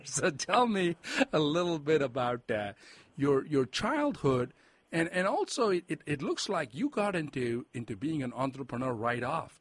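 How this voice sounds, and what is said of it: Foreign-accented English. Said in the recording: “I'm a first generation immigrant, and I came here when I was 20. So, hence the accent.”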